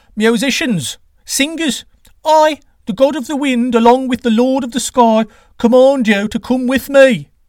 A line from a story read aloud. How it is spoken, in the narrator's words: Quetzalcoatl cried out again